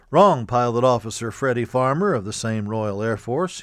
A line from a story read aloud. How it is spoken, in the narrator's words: he said